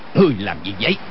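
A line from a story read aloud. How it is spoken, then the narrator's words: Shouted. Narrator (Vietnamese): quát lên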